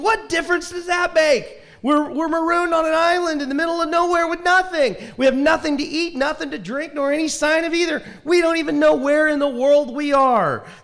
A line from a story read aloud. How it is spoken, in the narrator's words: Dumbfounded, the first man looked at him despondently and screamed